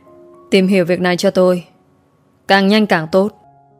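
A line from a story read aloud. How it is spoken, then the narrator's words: Cold, menacing. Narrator (Vietnamese): anh lạnh lùng cất giọng nguy hiểm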